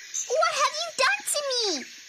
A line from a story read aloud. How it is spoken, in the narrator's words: Flea shouted